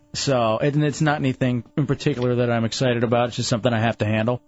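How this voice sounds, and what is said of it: Dejected, low-energy voice. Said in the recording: “You sound dejected ... I can tell it in your voice.”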